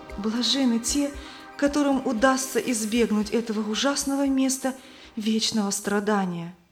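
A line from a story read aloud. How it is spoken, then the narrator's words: Trembling female voice. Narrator (Russian): Она побледнела и дрожащим голосом сказала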